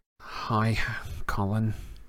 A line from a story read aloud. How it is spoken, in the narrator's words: said Harry wearily